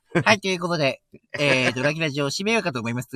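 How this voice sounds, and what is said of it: Imitates another person's voice. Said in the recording (Japanese): “なんかムカつく声だな、これ。...モノマネ...全然似てねえな...全然似てない...なんかふ、ふざけてるように聞こえる”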